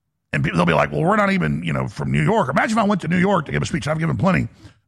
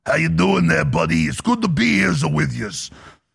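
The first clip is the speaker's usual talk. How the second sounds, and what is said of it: Attempted New York Sopranos accent. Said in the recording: “I try to do a Yankee accent, so like the Sopranos. I don't even know how to do it.”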